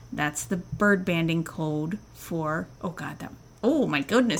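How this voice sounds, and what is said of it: Slips into a Minnesota accent. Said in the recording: “Minnesota accent ... Came out. ... I am a little tipsy and tired ... and now that Minnesota accent came out instead.”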